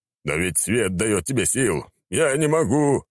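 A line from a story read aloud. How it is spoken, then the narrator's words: Moaning. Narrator (Russian): простонал Рабадон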